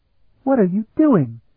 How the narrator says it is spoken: she exclaimed

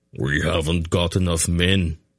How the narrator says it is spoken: Beric said flatly

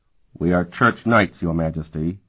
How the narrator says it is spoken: he said in a flat, unemotional voice

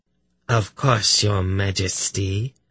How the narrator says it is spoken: replied in a voice that was nearly a purr

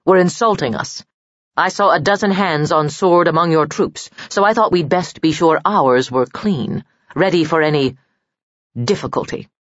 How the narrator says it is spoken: said Arkelin firmly

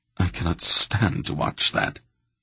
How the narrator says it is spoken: the little man choked

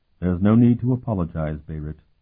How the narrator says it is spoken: Dolmant replied sadly

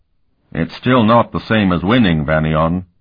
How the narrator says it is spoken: Comier grumbled

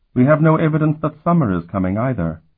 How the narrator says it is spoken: she said dryly

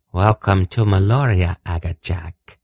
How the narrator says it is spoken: she almost purred

